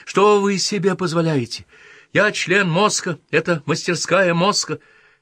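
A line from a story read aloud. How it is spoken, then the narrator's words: Shrill yelp. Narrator (Russian): вскрикнул или почти взвизгнул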